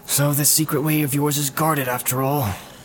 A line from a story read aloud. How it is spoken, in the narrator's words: he growled